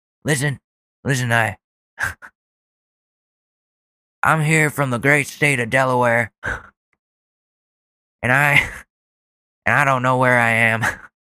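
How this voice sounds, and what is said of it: Imitates another person's voice. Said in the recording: “my Joe Biden impression”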